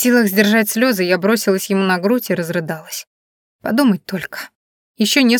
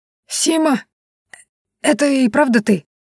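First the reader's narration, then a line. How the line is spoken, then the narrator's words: Choked, hoarse disbelieving wheeze. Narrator (Russian): От неожиданности он подавился и проглотил гулкой с надрывом, а потом неверяще просипел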